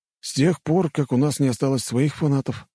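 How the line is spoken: Sigh. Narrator (Russian): вздохнул Геннадий

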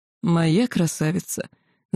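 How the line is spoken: Possessive drawl, dragon. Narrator (Russian): собственническими интонациями протянул черный дракон

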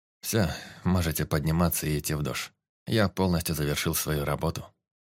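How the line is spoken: Tired. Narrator (Russian): он устало произнес

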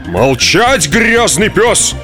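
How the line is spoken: Policeman roaring. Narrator (Russian): взревел полицейский

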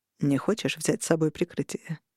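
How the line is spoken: Quiet question. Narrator (Russian): тихо спросил Роган

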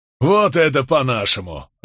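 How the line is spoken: Group roaring laughter. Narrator (Russian): расхохотались остальные

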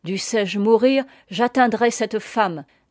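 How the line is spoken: Furious roaring man. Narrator (French): dit le commandant anglais qui rugissait de fureur

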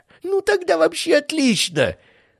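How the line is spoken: Laughing. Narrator (Russian): рассмеялся Бражников

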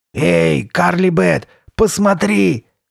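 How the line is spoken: Rough guttural shout. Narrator (Russian): крикнул он грубым, утробным голосом

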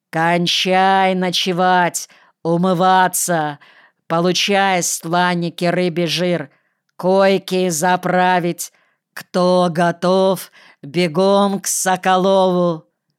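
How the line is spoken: Huge man's thunderous shout. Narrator (Russian): Донор Маркевич, огромный, толстый, как бегемот, громоподобным голосом кричит

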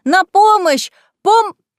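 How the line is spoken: Panicked scream. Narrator (Russian): стала терять самообладание и закричала

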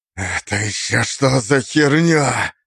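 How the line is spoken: Hiss. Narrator (Russian): прошипел мастер

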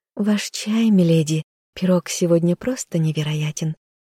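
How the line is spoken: Purring young woman. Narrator (Russian): мурлыкнула девушка

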